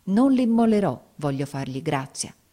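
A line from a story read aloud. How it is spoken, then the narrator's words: Exclaiming. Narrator (Italian): esclamai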